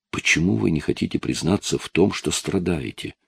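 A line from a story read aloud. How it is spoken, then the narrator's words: Whispered. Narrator (Russian): прошептала она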